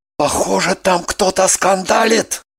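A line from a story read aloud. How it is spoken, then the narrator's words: Whisper. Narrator (Russian): Прошептал он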